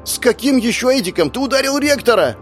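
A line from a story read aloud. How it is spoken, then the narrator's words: Girl shouting. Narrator (Russian): закричала девушка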